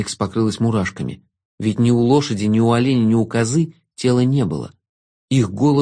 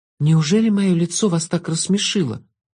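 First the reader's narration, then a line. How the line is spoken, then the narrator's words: Forced out, strained. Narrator (Russian): выдавила Алекс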